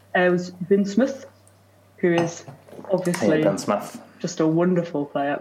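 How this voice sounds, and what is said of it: Poorly done put-on accent. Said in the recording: “My accents are really terrible. That was my very best effort. ... I even wrote it down in the accent”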